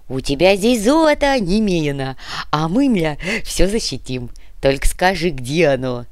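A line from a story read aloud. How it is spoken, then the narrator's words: Moaning. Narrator (Russian): Кортес застонал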